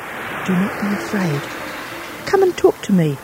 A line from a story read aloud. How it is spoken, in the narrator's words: whispered Karetaki